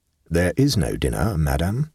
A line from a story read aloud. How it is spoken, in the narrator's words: said gravely